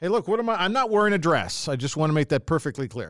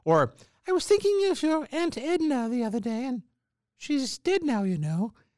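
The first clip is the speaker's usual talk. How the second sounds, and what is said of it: Man imitating his mother's voice. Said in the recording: “how well you speak as a woman ... that's really not a Welsh accent, which is a little sing songy ... the bad impression of my mom”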